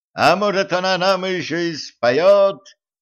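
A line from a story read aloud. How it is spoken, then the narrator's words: Excited shout. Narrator (Russian): азартно крикнул король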